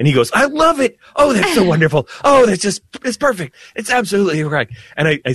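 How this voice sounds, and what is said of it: Usual voice. Nothing is said of it.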